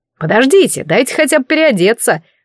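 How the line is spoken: Exclaimed, old man. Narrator (Russian): воскликнул дедушка

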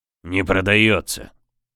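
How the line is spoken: Grumbling. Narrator (Russian): буркнул капитан

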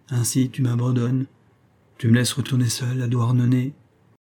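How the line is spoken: Dazed murmur, melancholy sigh. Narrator (French): murmurait, ahuri, puis il soupira, mélancoliquement

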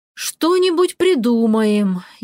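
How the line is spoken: Sighing. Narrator (Russian): я вздохнула

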